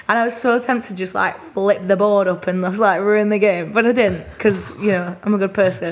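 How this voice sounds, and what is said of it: Moderate Lancashire-type northern English accent. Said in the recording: “The novelty of my accent's gone ... people think I'm putting it on ... yours isn't that... It's not as strong as ... quite a strong, like, Rosendale accent. ... Similar, isn't it?”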